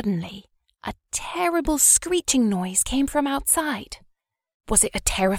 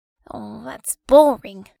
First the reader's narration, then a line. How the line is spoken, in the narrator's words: grumbled Maggie